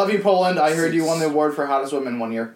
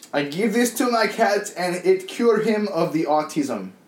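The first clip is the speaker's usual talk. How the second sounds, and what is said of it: Put-on Polish accent. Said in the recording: “I'm reading this in a kind of Polish accent”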